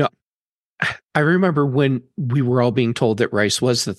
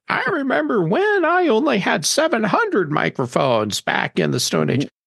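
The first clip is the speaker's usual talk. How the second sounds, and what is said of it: Old man impression. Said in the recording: “my guy impression”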